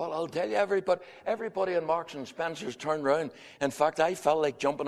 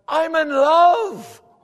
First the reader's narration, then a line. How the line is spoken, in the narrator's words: he shouted back